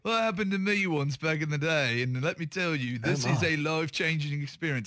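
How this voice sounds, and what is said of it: Put-on accent, admittedly not accurate. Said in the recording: “I don't think that's the right accent for Nick Faldo, but it would work for me”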